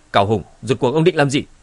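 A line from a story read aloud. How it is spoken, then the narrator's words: Angry shout. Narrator (Vietnamese): Hồng Ma cũng hoàng hồn, lập tức tức giận quát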